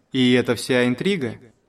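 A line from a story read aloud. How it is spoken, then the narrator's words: Stern question. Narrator (Russian): строгим голосом осведомился он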